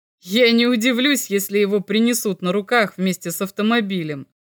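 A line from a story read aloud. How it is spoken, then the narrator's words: Laughing. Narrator (Russian): засмеялся Мельников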